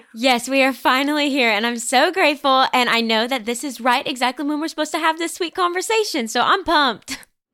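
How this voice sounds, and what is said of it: Sweet regional accent. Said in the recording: “I hear your sweet accent, or at least it's an accent to me”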